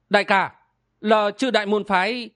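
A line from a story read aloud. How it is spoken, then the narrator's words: Blurted exclamation. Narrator (Vietnamese): Hoa Ngọc buộn miệng kêu lên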